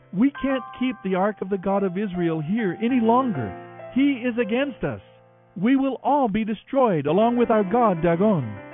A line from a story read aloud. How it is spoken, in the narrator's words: the people cried out